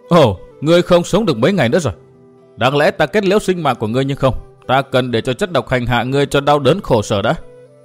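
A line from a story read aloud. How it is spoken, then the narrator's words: Loud laughter. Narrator (Vietnamese): Đạo cô cười lớn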